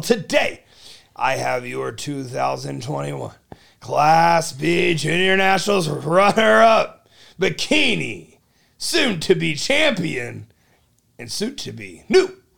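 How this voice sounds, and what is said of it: Raspy, loud voice. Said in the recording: “my raspy, loud, obnoxious voice”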